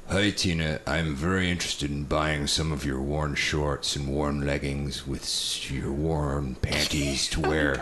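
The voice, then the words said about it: Creepy pervert character voice. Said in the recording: “Read it in a good pervert voice ... Do it in character.”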